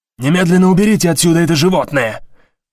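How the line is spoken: Shouted. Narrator (Russian): выкрикнул Стоун

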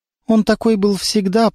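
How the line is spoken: Trembling voice. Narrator (Russian): проговорила она дрожащим голосом

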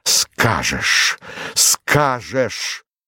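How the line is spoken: Strained, pained voice. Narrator (Russian): Он повторил это слово сдавленным голосом, точно оно вырвалось у него с болью и усилием

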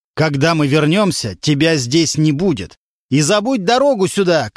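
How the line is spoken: Shouting from stairwell. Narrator (Russian): кричал он уже с лестничной клетки

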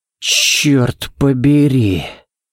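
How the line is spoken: Exhaled exclamation. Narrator (Russian): Выдохнул Баллок

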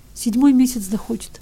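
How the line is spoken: Tearful reply. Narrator (Russian): отвечал Ивка все еще сквозь слезы

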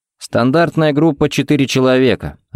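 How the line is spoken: Plain. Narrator (Russian): ответил Ричмонд

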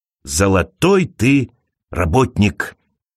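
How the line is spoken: Whisper. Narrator (Russian): часто шептал мистер Дуган

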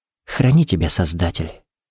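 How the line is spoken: Whisper. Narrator (Russian): прошептала

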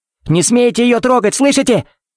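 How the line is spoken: Furious yell. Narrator (Russian): Заорал тогда Кевин

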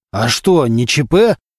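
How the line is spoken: Nervous barking boss. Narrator (Russian): нервно рявкнул начальник

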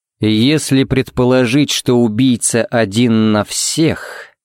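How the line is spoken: Drawn-out, thoughtful. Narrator (Russian): протянул Харри задумчиво

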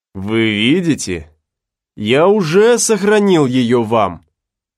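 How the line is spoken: Plain. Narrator (Russian): ответил Слейтон

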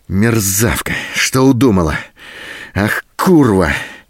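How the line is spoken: Hoarse, surging rage. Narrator (Russian): В то остывающем, то снова вспыхивающем бешенстве хрипел Голубин

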